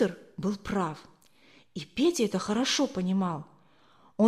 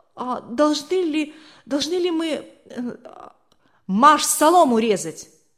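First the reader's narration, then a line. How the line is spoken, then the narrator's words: Frozen frightened babbling. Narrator (Russian): Не в силах сдвинуться с места, он пролепетал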